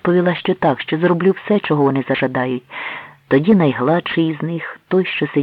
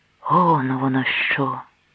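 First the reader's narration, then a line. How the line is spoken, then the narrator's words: Whisper. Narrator (Ukrainian): прошепотів Джонатан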